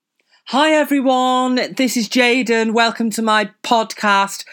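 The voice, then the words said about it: Fake clear podcast voice. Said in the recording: “This is my fake podcast voice because apparently I really need like a clear voice ... Can't be arsed with that voice.”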